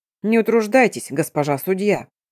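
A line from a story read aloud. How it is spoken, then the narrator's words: Deep bass goblin voice. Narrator (Russian): пробасил гоблин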